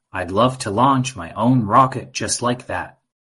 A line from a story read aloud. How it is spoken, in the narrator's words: exclaimed